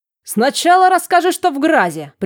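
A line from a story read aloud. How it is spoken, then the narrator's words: Sharp shout. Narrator (Russian): прикрикнул Жорес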